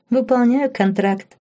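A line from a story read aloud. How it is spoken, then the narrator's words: Giggling reply. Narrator (Russian): хихикнула в ответ Лорен и залилась румянцем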